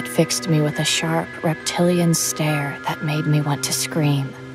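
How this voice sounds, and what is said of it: Usual voice. Nothing is said of it.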